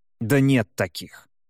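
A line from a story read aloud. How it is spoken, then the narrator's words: Snort. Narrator (Russian): фыркнул гнездо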